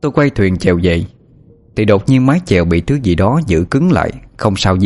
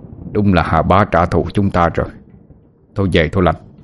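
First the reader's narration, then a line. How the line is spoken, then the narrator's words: Old man muttering. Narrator (Vietnamese): Ông lẩm bẩm nói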